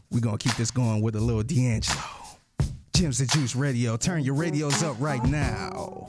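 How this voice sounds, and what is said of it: Put-on radio DJ voice. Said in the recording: “my fake radio voice”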